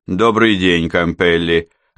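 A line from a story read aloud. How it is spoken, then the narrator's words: Formal tone. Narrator (Russian): официальным тоном произнес Франк Хальбек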